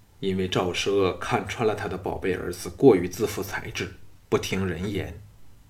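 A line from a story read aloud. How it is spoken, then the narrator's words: Sighing. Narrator (Chinese): 陶芳叹道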